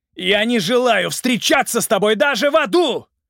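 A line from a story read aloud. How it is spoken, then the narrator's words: Man roaring from above. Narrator (Russian): проревел мужчина сверху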